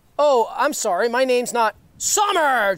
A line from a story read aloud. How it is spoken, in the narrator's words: Jester shouted louder now